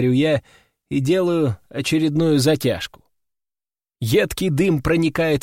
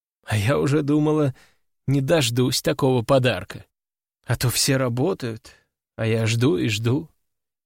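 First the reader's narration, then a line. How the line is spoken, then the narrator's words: Sad sigh. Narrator (Russian): печально вздыхает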